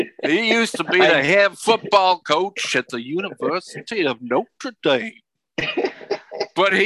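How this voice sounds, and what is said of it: Usual voice. Nothing is said of it.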